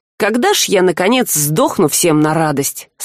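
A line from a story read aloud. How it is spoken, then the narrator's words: Gloomy ironic muffled mutter. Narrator (Russian): с мрачной иронией пробормотал Саврянин, уже уткнувшись лицом в подушку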